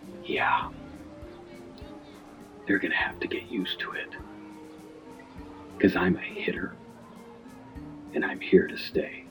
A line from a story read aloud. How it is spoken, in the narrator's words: Sammy whispered